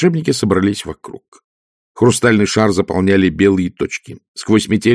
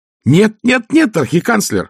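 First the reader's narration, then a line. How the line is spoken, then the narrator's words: Exclaimed. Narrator (Russian): воскликнул Проницай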